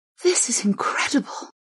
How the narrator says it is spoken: Zan breathed

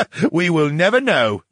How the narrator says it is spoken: the brain chuckled

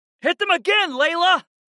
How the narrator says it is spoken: I shouted

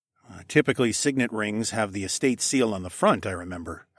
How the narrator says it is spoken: I said

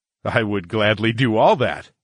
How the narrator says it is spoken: I chuckled

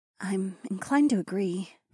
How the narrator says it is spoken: Nokomis murmured

